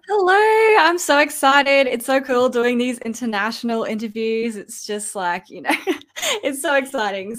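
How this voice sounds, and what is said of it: Australian accent. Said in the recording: “When I saw that you were from Australia ... the accent, I needed the accent”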